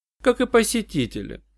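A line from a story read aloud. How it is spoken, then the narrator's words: Dry remark. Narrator (Russian): сухо заметила Джанна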